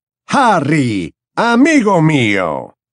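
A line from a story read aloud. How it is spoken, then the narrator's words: Exclaiming. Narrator (Spanish): exclamó Slughorn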